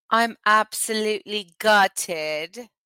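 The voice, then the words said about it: Put-on British accent. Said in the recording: “Why are you in an accent? ... do UK people say gutted a lot? ... I love how they speak, and I want to speak like that.”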